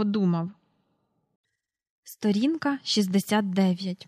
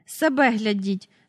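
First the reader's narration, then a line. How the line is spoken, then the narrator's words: Angry. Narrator (Ukrainian): сердито сказала вона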